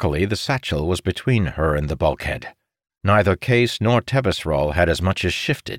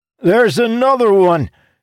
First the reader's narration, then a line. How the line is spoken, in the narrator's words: Jacob shouted